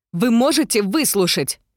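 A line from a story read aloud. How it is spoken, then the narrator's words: Shout. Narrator (Russian): крикнула я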